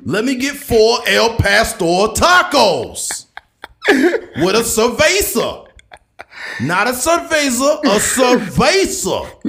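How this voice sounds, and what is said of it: Stephen A. Smith impression. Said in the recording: “Stephen A. Smith impersonations”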